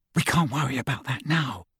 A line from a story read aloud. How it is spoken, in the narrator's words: whispered Hermione